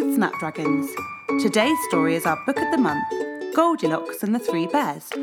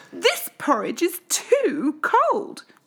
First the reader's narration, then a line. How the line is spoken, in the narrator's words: cried